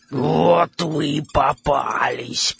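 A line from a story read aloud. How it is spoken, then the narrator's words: Hoarse wheeze. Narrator (Russian): прохрипела она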